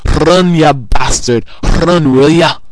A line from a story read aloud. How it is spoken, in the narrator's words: the Scotsman stands up and roars with the crowd in his thick accent